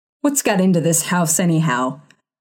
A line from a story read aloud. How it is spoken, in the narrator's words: He growled